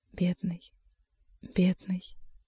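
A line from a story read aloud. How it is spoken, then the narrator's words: Soundless whisper. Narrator (Russian): беззвучно зашептала Маргарита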